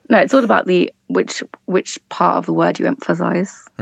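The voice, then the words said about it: British accent. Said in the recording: “you Brits pronounce a lot of things, even like despite the accent”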